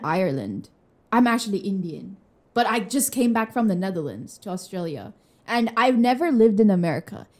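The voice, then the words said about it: Mixed, not-quite-pure American accent. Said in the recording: “I have an American accent ... there's a mix of other accents. Like, it doesn't sound pure American ... It's not pure American. It just sounds like you've just come back from America”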